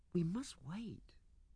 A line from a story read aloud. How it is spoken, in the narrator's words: whispered